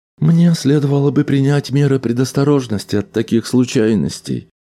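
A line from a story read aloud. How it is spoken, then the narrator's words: Sad. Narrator (Russian): грустно промолвила шлюпка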